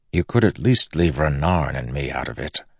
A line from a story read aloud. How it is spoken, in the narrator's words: he said softly to Kaladin